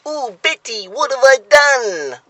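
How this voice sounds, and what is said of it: Impression of a sitcom character's voice. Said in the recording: “this buffoon called Frank Spencer, who used to go ... That was a very good impression.”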